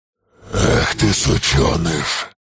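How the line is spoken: Roar. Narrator (Russian): Взревел черный

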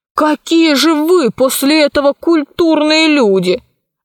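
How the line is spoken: Exclamation. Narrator (Russian): воскликнул Пашка

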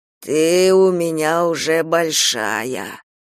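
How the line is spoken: Wheezy, stifled laughter. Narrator (Russian): просипел папа, и раскаленное тело его затряслось в сдавленном смехе

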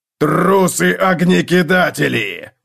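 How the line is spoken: Roared. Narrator (Russian): взревел Готрек

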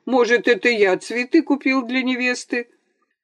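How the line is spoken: Laughing. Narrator (Russian): Антон рассмеялся

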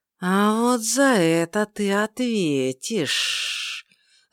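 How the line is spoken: Angry unmelodious hiss. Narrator (Russian): злое шипение мало походило на мелодичный голос остроухих

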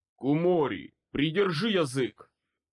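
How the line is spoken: Growling. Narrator (Russian): прорычал

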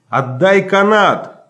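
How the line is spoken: Shouted. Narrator (Russian): крикнул я

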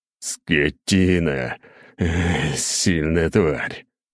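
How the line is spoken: Groaning. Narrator (Russian): простонал я

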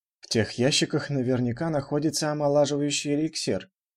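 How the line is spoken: Young man whispering to himself. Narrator (Russian): тихо прошептал себе под нос юноша

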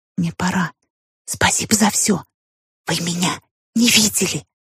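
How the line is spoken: Whispered reply. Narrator (Russian): Также шепотом ответила

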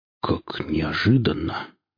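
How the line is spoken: Mutter. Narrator (Russian): пробормотал он

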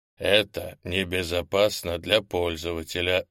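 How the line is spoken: Even, old man. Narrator (Russian): ровным голосом проговорил старый Керш

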